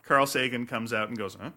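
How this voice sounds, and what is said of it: Imitates another person's voice. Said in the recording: “That was my Carl Sagan impression.”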